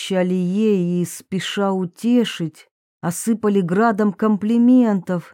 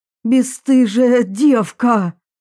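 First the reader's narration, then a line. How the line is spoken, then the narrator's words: Furious spitting shout. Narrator (Russian): Она кричала, брызжа слюной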